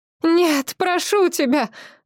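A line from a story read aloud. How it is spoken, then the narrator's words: Sobbing. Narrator (Russian): рыдала Тия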